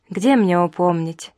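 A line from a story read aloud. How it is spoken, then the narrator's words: Mournful sigh. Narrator (Russian): вздохнула скорбно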